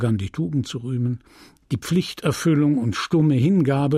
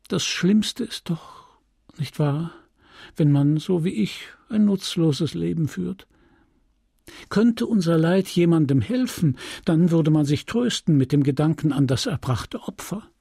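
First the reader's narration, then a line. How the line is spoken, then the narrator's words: Sigh. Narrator (German): Dann aber seufzte sie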